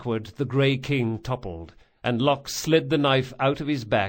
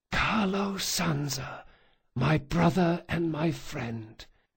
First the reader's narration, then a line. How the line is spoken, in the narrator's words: in an impossibly calm voice he whispered